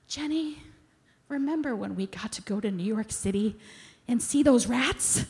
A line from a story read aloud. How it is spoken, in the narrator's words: one of the girls sighed happily and said